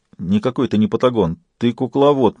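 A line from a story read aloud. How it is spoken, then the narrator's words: Mumbling. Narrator (Russian): промямлил Нихол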